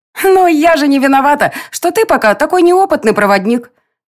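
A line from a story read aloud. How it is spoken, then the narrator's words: Giggling. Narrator (Russian): хихикнула тень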